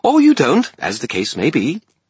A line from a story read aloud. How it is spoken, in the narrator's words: Bob said brightly